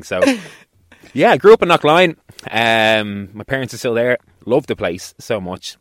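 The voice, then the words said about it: Posh south Dublin Irish accent. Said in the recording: “I get slagged a lot for being posh because of my accent... just because I sound a certain way... I'm from Dublin 16... D4”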